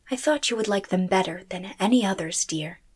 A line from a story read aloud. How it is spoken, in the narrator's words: she said softly